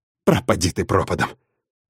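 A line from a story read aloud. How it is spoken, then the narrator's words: Resigned exhale. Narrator (Russian): Выдохнул я обреченно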